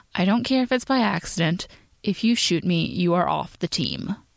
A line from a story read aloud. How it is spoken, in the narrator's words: said very calmly